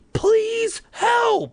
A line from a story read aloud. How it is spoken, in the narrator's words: I screamed as loud as I could